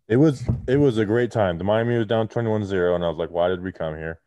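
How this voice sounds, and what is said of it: Muffled voice. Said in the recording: “why he sounds muffled”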